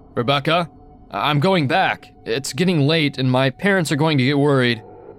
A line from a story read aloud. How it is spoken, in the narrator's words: I was getting scared, called out